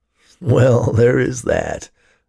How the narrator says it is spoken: laughed Ted

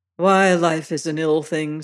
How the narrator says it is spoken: says I

